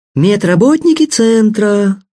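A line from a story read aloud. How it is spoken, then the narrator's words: Sing-song. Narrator (Russian): нараспев проговорила девушка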